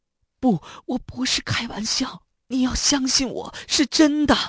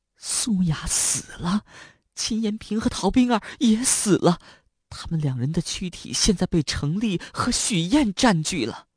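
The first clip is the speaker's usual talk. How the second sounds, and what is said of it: Hushed, whispered urgent speech. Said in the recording (Chinese): “示意徐招娣不要大声说话， ... 小声的告诉他”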